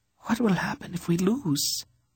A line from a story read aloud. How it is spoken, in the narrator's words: the princess asked in a tiny, frightened voice